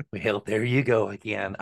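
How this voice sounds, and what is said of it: Imitates another person's voice, badly. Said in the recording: “we're both going to do our impersonation ... you do your bad Reagan”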